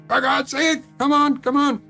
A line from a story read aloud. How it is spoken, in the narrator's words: I was screaming into the phone